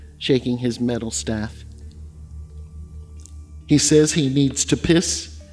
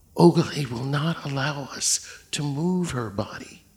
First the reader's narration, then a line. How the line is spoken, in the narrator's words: Boniface whispered, as if afraid the dead girl might hear his voice and punish him